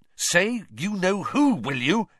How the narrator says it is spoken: interjected Ron angrily

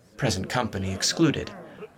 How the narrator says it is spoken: she murmured

